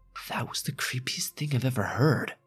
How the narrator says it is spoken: My friend Lily whispered

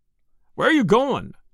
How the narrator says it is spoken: he shouted

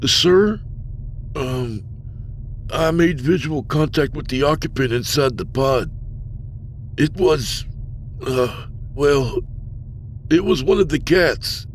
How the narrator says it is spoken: Timidly, he said

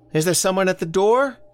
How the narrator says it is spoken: From the kitchen, Elsie called out

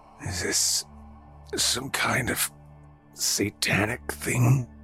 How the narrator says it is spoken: Oscar croaked

